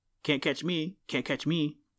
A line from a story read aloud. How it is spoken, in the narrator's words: taunted Chatterer in the most provoking way